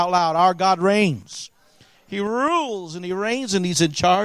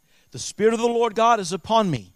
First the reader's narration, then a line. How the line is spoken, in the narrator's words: Isaiah said